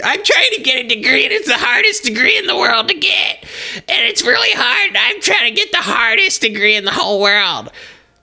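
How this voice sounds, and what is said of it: Imitates another person's voice. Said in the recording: “great Kelsey impression”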